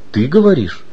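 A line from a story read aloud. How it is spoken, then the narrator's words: Calm. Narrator (Russian): спокойно ответил Иван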